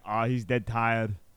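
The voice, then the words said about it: Imitates another person's voice. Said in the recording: “That was impressive ... If my Arnold impression would be good”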